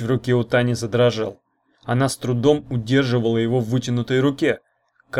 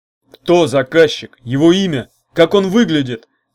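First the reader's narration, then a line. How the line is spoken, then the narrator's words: Demanding shout. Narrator (Russian): требовательно крикнул урк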